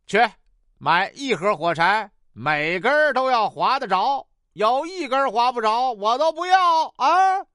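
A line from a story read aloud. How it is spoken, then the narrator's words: Stingy boss insisting. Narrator (Chinese): 吝啬的老板一再嘱咐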